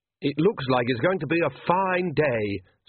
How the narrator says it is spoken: said Oates happily

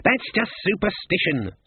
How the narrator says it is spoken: snapped Cleet

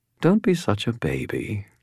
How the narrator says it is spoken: she replied, her tone amused

